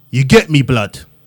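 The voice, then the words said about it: Attempted London English accent. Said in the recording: “in your best English accent. ... You did do okay. You did amazing. ... You would pass over here.”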